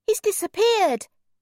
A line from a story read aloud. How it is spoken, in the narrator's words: cried